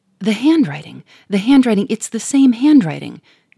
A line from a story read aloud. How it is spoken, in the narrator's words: gasped the millionaire